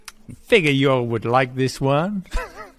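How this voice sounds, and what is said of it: Put-on American accent. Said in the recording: “I'll try and do my best American accent ... dead on”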